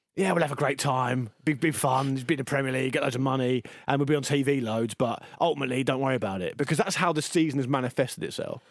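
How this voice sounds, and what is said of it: Imitates another person's voice. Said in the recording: “What was that voice? ... I don't know what voice that was, really, actually. ... Sean Dyche, maybe, a bit of it.”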